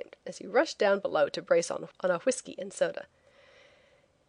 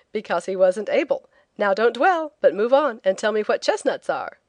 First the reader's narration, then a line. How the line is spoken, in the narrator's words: said teasingly